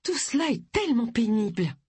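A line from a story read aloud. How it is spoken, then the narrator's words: Piping, fluty voice. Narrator (French): commenta Pénélope d'une voix flûtée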